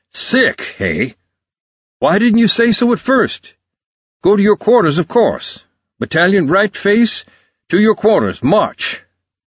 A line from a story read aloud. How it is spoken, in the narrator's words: The colonel thundered out